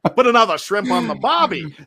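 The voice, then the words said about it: Put-on Australian accent. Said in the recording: “that's almost as bad as my Aussie accent ... you guys make fun of my Australian accent”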